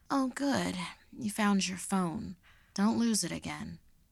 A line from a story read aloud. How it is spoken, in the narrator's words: she sleepily remarked